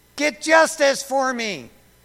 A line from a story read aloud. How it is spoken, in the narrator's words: she kept yelling it